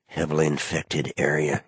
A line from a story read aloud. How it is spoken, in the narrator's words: muttered